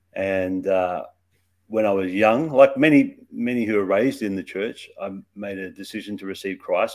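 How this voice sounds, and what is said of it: Australian accent. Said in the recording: “So I grew up in Australia. That's where my accent comes from.”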